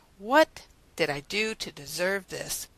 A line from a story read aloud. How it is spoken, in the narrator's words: sigh